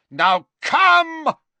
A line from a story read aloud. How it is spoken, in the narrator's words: he shouted at the huge Death Eater behind Harry